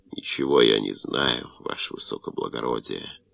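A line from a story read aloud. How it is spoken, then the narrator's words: Strained groan. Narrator (Russian): натужно простонал Щур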